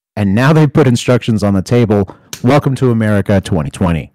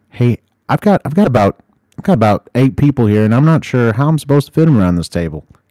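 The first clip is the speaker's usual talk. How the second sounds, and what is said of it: Put-on hillbilly accent. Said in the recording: “You gave that white person a very hillbilly accent for some reason. ... That's just my go-to accent.”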